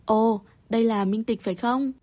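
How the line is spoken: Loud laugh, shaken. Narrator (Vietnamese): chị ta biến sắc, cười lớn

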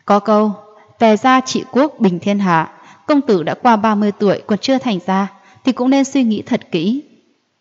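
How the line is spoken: Laughing loudly. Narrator (Vietnamese): Mộ Dung gia chủ cười lớn nói

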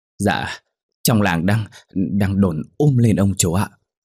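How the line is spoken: Breathless panting reply. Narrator (Vietnamese): thở hổn hển đáp

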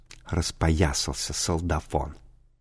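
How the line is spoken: Whispered. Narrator (Russian): Они прошептав

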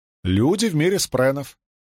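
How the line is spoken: Plain. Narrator (Russian): ответила струна

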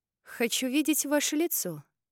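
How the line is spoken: Calm declaration. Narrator (Russian): спокойно заявила я

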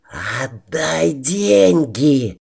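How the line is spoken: Venomous hiss. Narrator (Russian): Змеей прошипел барон

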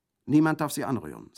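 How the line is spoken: Plain. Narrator (German): sagte sie

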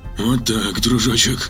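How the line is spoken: Muttering. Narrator (Russian): бормотал капитан

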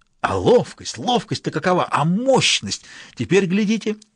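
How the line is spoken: Exclamation. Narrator (Russian): воскликнул Думчив

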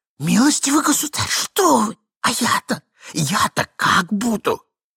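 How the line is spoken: Desperate whisper. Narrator (Russian): прошептал Иван Андреевич в припадке отчаяния

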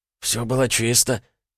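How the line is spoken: Quiet reply. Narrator (Russian): тихо ответил второй

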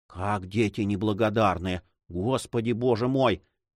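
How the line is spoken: Old woman whispering. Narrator (Russian): прошептала старуха

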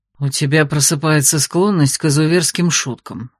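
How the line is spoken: Muttered without turning. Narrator (Russian): буркнул он, не оборачиваясь

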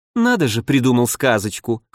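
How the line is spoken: Scoffing. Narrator (Russian): хмыкнула Рогова

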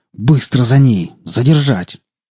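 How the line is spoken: Hiss of suppressed fury. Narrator (Russian): Сдерживая заполнившую грудь ярость, прошипел

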